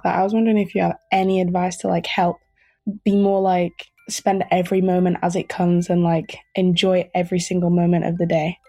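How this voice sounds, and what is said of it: A beautiful accent. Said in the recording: “beautiful accent. I really loved that.”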